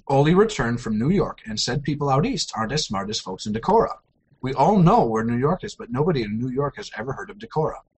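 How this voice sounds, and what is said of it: Thick put-on accent. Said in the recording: “I'll speak without an accent.”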